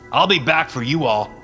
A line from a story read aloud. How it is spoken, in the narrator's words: I shouted to the trees